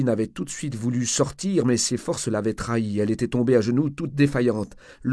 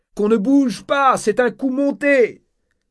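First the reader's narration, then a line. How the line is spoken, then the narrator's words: Shouted. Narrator (French): D'Enrys cria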